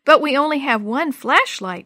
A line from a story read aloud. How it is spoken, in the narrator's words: Jenny cried